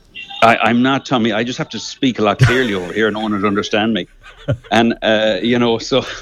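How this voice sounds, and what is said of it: Polished Irish accent, slightly Americanized. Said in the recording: “you're starting to get the American accent ... It's just a very polished, clean Irish accent ... A very, very polished Le Canvey accent”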